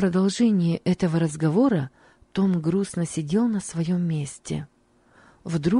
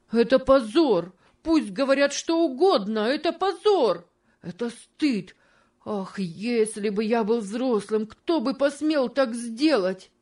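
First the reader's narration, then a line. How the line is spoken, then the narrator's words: Shouting with suppressed sob. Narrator (Russian): кричал он со сдержанным рыданием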